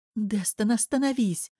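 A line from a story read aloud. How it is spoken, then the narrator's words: Pleading. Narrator (Russian): взмолилась Алола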